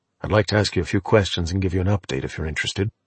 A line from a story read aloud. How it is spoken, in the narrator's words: He said in a low voice